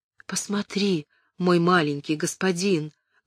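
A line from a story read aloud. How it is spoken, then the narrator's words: Whisper. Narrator (Russian): прошептала Изольда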